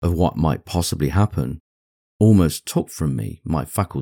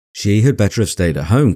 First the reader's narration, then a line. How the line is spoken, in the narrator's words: cried Elizabeth